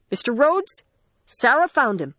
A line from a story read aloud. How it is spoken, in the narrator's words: Joe called out